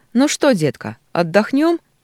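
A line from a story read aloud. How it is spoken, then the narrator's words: Cheerful question. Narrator (Russian): весело спрашивает Брукс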